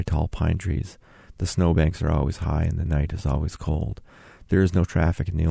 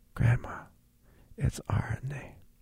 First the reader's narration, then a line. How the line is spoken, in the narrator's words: whispered